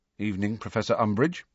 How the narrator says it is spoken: Harry said stiffly

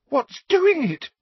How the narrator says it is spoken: Parvati demanded in a terrified voice

